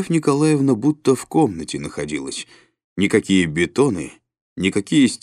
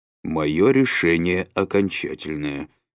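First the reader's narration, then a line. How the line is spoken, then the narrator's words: Plain. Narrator (Russian): сказал Михаил Никифорович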